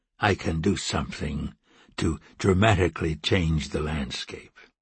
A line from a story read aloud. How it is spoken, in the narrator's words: added Carter quietly